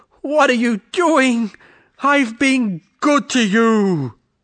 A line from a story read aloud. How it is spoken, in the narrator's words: It was painful to the swan, and he cried and screamed pitifully